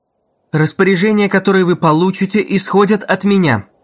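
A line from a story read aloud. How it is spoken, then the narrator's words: Loud and clear. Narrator (Russian): заговорила Дагни громко и четко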